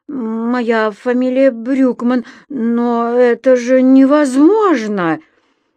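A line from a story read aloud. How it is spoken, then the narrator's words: Stammering. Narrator (Russian): она, запинаясь, проговорила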